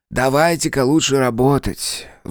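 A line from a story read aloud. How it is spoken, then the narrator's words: Sighed. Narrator (Russian): вздохнул Дизраэли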